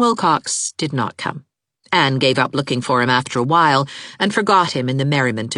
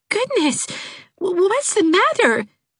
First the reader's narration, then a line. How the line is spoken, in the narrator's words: gasped Dot Fraser